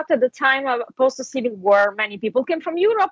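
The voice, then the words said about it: Italian accent. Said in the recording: “Italian and Russian doesn't sound the same to my ear. Do people really not know what your accent is?”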